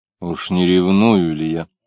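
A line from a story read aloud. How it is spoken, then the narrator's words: Asking oneself. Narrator (Russian): спросил себя Самгин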